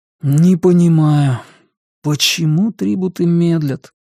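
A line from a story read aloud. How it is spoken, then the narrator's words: Sighing. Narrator (Russian): вздохнул Сиян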